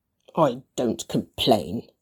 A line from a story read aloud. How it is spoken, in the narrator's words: Gretchen muttered